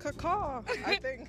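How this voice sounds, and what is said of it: Imitates a peacock's call. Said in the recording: “your best peacock impersonation”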